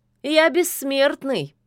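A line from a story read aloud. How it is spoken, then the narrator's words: Snide. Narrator (Russian): ехидно напомнил Кощей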